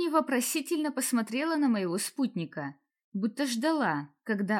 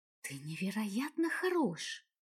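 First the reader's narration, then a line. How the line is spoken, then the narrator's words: Whispering. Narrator (Russian): шепнула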